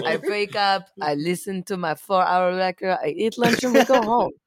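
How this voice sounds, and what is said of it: Put-on European accent. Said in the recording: “How European ... It was your Eurovision accent.”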